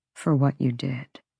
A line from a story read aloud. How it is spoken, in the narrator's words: he said quietly